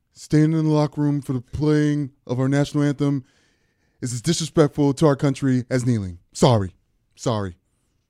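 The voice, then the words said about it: Imitates another person's voice. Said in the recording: “That was a Trump impression.”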